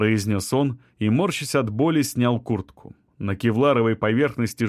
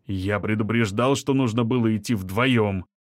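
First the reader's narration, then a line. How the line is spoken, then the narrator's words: Grumbling mutter. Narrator (Russian): пробурчал Шамиль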